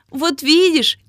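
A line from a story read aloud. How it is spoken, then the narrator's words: Sleepy gnome's giggle. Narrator (Russian): хихикнул сонный гномик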